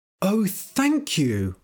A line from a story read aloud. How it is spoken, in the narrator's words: cried